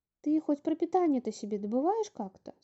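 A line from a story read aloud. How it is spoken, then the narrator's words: Plain. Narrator (Russian): спросила Топа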